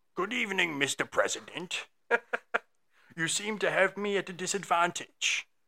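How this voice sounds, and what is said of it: Winston Churchill impression. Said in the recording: “do my best Winston Churchill impression”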